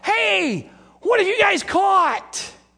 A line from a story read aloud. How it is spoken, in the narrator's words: he basically is yelling from the shore